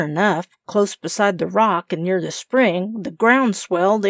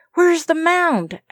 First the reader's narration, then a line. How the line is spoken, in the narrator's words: asked Kenneth eagerly